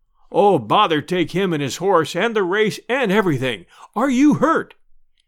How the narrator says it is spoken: gasped the deacon

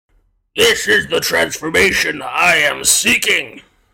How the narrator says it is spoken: the monk stopped and glared up at the questioner with hard eyes before booming out

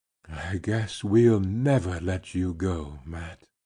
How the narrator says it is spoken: he whispered

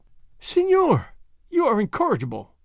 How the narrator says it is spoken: the señorita Lolita exclaimed, laughing

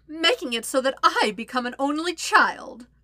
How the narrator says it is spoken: Azula cackles

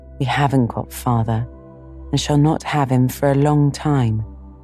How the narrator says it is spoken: Joe said sadly

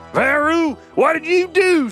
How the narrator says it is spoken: shouted Bodega

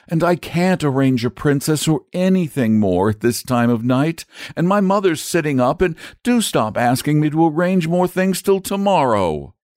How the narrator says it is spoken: he wailed

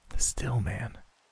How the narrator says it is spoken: She ... whispered

